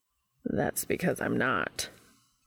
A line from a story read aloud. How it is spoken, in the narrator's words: Castiel said dryly